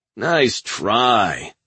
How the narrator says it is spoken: Newt sneered

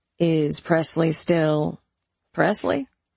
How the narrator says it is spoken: I chuckled

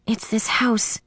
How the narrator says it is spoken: I whispered

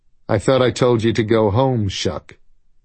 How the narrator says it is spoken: he said

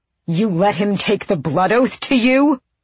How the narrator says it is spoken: Adian bellowed

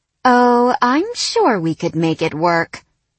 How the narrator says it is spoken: she purred

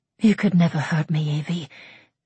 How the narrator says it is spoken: breathed against his sweat-dampened skin

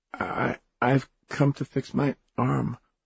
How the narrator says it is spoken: said Alice nervously

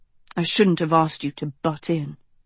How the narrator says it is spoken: he muttered

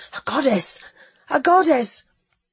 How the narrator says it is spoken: a low murmur, almost a sob, began, swelled, broke into the gasping cry

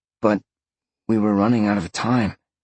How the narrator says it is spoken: Sean said softly

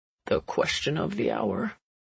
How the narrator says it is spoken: George murmurs

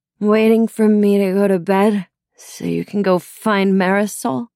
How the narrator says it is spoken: The words were slurred, spiteful

